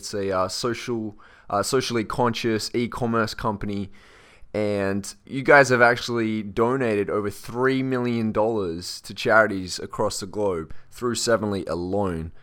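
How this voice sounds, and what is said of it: Strong Australian accent. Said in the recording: “you're sounding very Australian today ... I guess I am from Australia”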